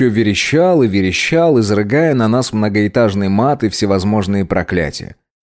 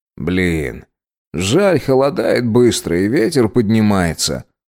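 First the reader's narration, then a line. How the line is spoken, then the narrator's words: Sighing. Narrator (Russian): вздохнул Длинный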